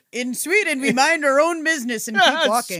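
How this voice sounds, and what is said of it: Put-on Swedish accent. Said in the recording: “I don't know what accent that was.”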